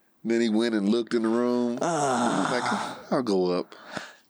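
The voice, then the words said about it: Imitates another person's voice. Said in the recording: “your Ryan Davis impression is on point. You made the face and everything.”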